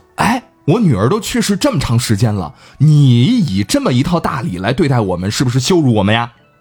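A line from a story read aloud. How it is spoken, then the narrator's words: Angry. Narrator (Chinese): 这范公很恼怒啊，说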